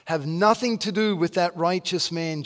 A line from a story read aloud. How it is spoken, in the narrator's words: she said